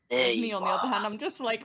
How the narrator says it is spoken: my character shouted

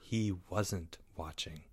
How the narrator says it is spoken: said Leo in a soft voice

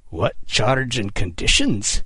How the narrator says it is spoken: Kidd snarled through gritted teeth

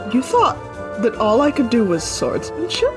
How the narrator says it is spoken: she laughs, and she's like

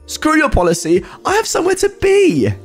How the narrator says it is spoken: She barks back at him

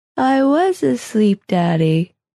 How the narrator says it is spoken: she said, yawning, her voice thick with tiredness

